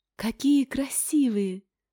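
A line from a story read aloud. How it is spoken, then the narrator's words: Breathless exclamation. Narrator (Russian): выдохнула Ингрид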